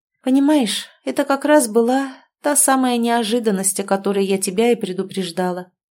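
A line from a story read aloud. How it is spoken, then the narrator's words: Sad reply. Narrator (Russian): грустно ответила я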